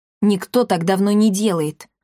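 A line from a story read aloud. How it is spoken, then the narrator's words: Snapping. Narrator (Russian): огрызнулся Триш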